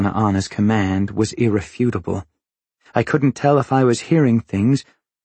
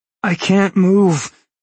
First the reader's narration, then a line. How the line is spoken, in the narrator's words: I gasped, squeezing out the words